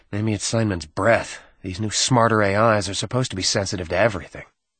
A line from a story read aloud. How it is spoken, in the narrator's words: Ensign Hanford murmured